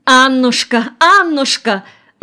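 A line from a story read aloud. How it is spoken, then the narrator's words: Exclaiming. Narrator (Russian): воскликнула Нина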